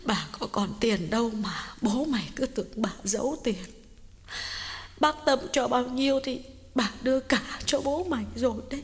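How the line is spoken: Sobbing. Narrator (Vietnamese): Bà Cảnh sụt sùi nói

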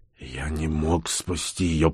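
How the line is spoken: Weak whisper. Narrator (Russian): прошептал Бур, хотя хотел сказать это громко и уверенно

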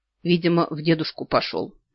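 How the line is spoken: Muttering under breath. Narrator (Russian): бормочу себе под нос

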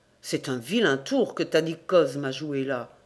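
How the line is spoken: Murmured. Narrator (French): murmura-t-il

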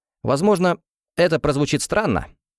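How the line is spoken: Unexpectedly cheerful. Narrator (Russian): сказал Кимберли неожиданно веселым голосом

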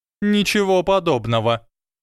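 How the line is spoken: Sharp objection. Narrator (Russian): резко возразила МакГонагалл

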